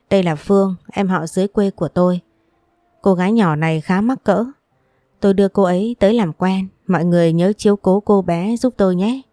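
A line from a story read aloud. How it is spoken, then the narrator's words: Friendly, smiling woman. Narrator (Vietnamese): chị ấy mỉm cười, giọng nói thân thiện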